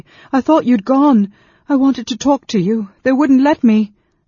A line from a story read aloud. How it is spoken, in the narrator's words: Gilthas said brokenly